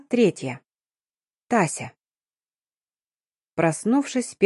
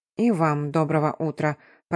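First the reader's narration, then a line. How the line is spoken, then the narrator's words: Grumbling. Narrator (Russian): проворчала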